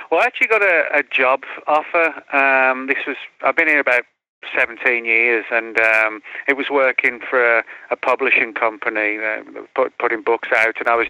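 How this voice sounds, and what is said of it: English accent. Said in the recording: “I hear an English accent”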